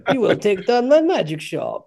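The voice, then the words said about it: Mock Russian accent. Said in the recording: “do a Russian accent”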